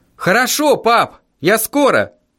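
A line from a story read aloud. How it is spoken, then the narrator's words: Cheerful shout. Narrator (Russian): весело крикнул я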